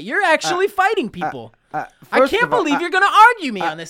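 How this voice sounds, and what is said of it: Imitates another person's voice. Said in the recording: “that was a terrible impression of me. I sound nothing like that.”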